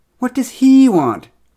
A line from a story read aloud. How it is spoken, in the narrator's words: cried Franz in frustration